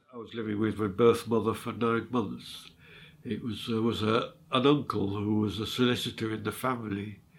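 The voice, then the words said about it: Northern English (Sheffield) accent. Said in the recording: “taken to Sheffield. This is where I get my accent from. I'm more northerner, really.”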